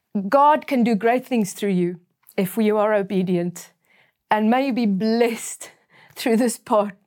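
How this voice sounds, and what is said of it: Emotional, teary voice. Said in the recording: “I'm getting teary-eyed.”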